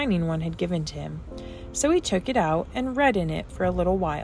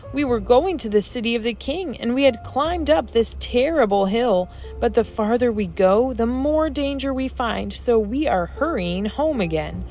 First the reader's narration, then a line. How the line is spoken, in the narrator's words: cried the eldest, whose name was Timorous